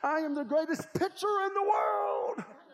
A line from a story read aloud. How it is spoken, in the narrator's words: All of a sudden, he starts jumping, and he shouts